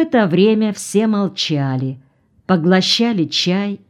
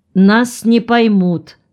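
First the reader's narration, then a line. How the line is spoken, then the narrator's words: Stern, curt. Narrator (Russian): строго отрезала Лозатина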